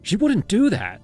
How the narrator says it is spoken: snapped

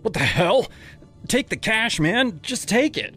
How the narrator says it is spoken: I shouted, my heart pounding like a drum in my ears

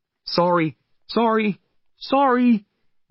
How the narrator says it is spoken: we shouted to the other customers

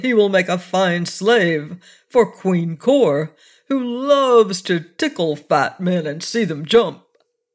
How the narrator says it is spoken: laughed Buzzub

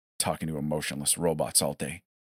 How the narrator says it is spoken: he muttered

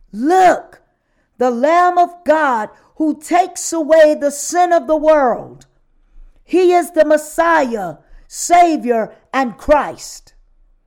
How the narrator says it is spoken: witnessed to people shouting

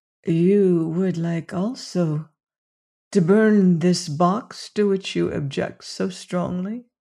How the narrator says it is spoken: whispered Ferreira

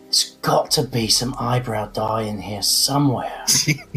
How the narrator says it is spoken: muttering to myself

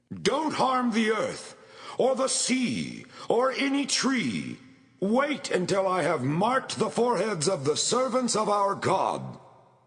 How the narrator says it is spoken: He shouted to the four angels

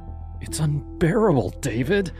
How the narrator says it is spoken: she said one night, her voice trembling as she stood on the other side of the room, as far from me as she could get

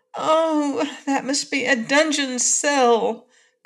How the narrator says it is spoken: cried Dorothy, horrified

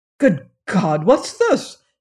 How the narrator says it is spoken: exclaimed Harthwaite

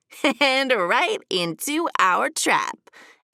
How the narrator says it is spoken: added Bunny with a giggle

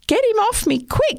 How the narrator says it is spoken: he cried

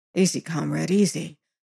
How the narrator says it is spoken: quoth he softly

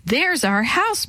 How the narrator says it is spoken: Maria cried

